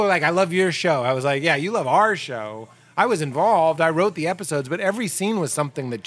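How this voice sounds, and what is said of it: Usual voice. Nothing is said of it.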